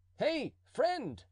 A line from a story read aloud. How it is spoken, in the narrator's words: cried the duke